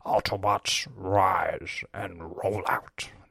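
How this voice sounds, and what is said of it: Impression of Optimus Prime. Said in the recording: “that's a good impression of Optimus Prime”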